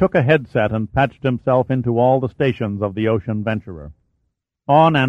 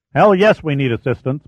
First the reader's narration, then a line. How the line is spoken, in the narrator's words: Pitt shouted